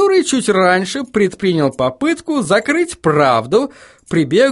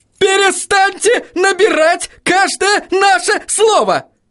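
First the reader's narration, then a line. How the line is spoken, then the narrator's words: Yelled. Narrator (Russian): завопил Кривс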